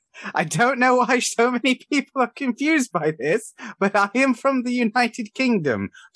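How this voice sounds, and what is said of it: British accent with Cornish tinge. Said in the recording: “I am from the UK ... Specifically, I'm from Cornwall, and I suspect the Cornish accent is mixing with the British accent, which is what's confusing everyone”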